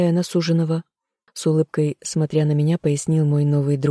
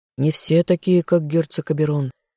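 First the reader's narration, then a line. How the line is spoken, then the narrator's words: Sympathetic sigh. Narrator (Russian): Эмиль, сочувственно вздохнув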